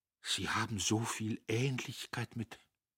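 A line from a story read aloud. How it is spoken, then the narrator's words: Stammered. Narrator (German): stammelte Notgroschen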